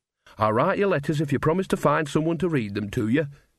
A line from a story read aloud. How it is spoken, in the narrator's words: she said